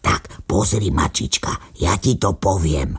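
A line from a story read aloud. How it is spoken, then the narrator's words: Whispered. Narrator (Slovak): šepkal psíček mačičke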